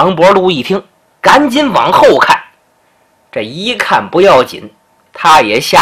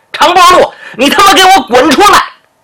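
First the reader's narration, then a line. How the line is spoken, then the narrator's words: Rude shout. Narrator (Chinese): 后院那喊声啊可没那么客气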